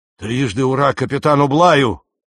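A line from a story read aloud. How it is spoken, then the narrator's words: Enthusiastic shout. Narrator (Russian): восторженно крикнул Джон Холлетт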